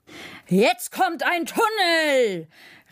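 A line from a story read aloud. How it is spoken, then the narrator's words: Shouting over engine noise. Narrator (German): rief der Lokführer über das Fauchen der Lok hinweg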